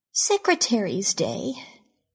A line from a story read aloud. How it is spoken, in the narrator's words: she said sleepily